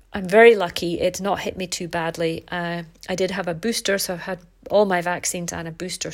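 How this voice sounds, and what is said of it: Congested, bunged-up voice. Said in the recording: “You can probably hear in my voice, I'm a bit bunged up.”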